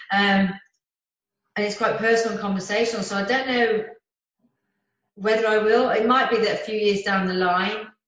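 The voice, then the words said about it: Birmingham (Brummie) English accent. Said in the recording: “they'll probably hear my accent ... you'll hear this broomy accent”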